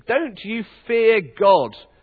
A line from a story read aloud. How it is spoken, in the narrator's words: he said